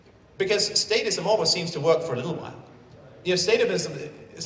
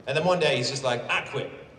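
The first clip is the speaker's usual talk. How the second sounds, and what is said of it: Put-on Southern accent. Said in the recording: “I don't know why I'm doing a Southern accent when I do that. Everyone who quits is a Southerner.”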